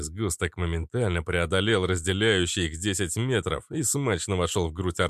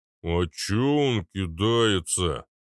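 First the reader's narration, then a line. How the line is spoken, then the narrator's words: Low booming. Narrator (Russian): прогудел Арнольд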